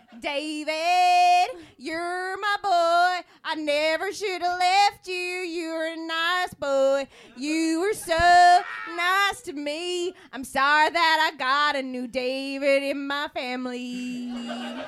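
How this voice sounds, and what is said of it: Sung in a singing accent. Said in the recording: “that's my singing accent.”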